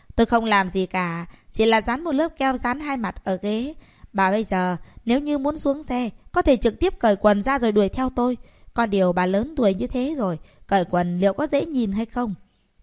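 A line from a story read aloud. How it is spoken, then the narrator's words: Smiling, slightly smug. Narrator (Vietnamese): Thẩm Minh Chiết mỉm cười có hơi đắc ý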